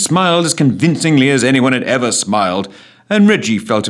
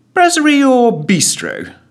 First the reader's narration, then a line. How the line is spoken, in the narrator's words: chirped Ellen, determined to be of maximum usefulness